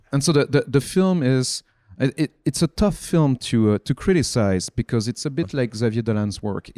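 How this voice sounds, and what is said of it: Non-native English accent. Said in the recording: “It's because of the accent. I was like, okay, no one will understand me.”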